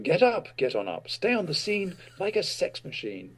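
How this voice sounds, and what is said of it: Posh Oxford English accent. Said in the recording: “I break into my best Oxford accent.”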